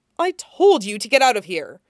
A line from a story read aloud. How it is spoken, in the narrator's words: Peter snarls